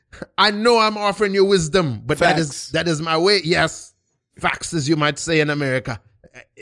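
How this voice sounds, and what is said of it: Speaks with a foreign accent. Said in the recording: “I don't know if it's your accent”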